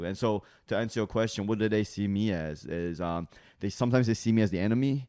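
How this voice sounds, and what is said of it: Speaker with a noticeable accent. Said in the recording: “because I have an accent ... you talk like this”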